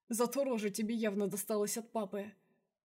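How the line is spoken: Nervous laugh. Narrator (Russian): хохотнул Артур, но смешок получился нервным

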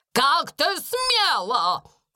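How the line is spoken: Female shout. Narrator (Russian): крикнула она

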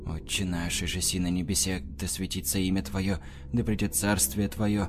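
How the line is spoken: Low muttered prayer. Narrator (Russian): забормотал в полголоса Борис Александрович

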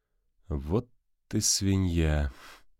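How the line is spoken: Weary indignation. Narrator (Russian): устало возмутился Константин

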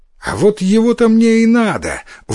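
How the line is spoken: Exclaimed. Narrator (Russian): воскликнул Иссумбоси

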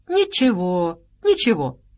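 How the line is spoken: Cheerful rescuer. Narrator (Russian): бодро ответил спасатель

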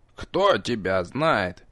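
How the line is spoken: Habitual grumble, old man. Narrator (Russian): проворчал, скорее по привычке, старик

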